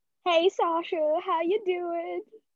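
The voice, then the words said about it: Put-on accent. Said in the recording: “Why did I do an accent?”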